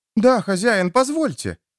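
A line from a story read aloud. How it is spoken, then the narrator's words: Exclaimed. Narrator (Russian): воскликнула Полли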